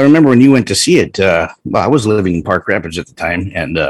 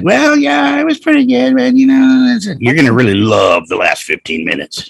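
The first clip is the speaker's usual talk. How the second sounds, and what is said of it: Whiny imitation of another person's voice. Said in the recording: “I love the whiny impersonation that you do of me.”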